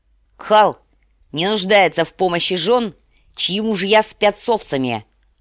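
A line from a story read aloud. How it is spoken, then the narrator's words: Barking. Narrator (Russian): рявкнул Квота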